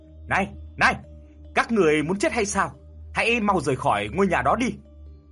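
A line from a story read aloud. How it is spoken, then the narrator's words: Old man shouting. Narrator (Vietnamese): Ông lão hét lên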